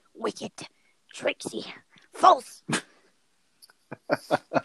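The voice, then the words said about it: Raspy Gollum creature voice. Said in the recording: “hurting my throat ... doing your Gollum impression”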